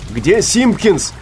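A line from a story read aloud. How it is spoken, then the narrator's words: Shout from boat. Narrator (Russian): крикнули ему с борта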